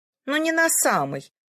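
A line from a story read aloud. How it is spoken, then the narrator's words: Carefree tone. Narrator (Russian): беспечным тоном откликнулась Сун Лимин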